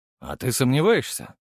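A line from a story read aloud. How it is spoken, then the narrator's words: Snort. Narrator (Russian): хмыкнул Гаврилов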